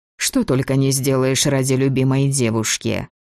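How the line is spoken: Amused snort. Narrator (Russian): Маркус хмыкнул

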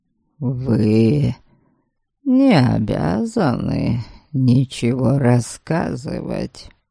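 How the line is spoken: Silky, ingratiating. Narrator (Russian): вкрадчивым тоном произнес Норберг

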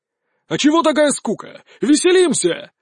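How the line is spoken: Shouting. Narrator (Russian): закричал Влад

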